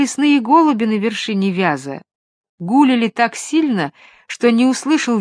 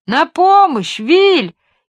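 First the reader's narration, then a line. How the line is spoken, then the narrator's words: Screaming at full volume. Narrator (Russian): изо всей мочи завопил джип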